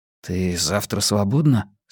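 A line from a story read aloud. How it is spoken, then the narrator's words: Whispered question. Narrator (Russian): шёпотом спросил он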